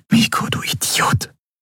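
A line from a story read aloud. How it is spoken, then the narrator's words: Whisper. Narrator (German): flüsterte sie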